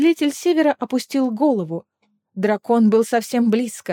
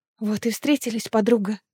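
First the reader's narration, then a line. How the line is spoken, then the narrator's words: Whisper. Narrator (Russian): прошептала Аэлина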